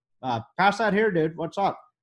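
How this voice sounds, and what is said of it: Poor imitation of another person's voice. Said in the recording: “that was a terrible impression”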